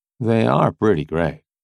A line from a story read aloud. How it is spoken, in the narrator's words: I said dryly